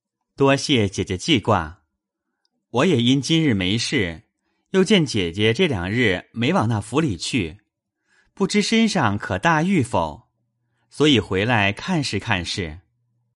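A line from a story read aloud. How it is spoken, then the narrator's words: Laughing. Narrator (Chinese): 宝玉笑道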